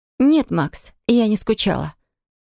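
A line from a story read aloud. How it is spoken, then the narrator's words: Too sharp. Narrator (Russian): сказала чересчур резко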